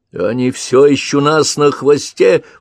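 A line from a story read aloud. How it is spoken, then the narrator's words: Distant shout. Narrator (Russian): прокричал из глубины кабины Крейг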